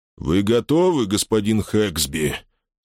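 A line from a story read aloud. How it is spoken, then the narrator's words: Hollow, muffled deep voice. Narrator (Russian): спросил Роджер Даррелл своим глухим голосом, словно бы исходившим из глубины мутного пруда внутри его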